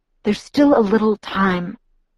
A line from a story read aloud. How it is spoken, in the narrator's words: Edward murmured, hushed agony in his voice